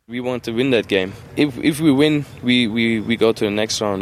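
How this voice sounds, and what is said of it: German accent. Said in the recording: “the German accent”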